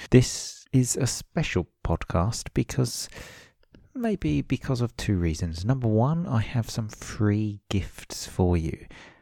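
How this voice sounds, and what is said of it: Quiet late-night radio voice. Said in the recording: “I've got my late night radio voice on again because, as usual, everyone in my house is sleeping, so I don't want to make too much noise”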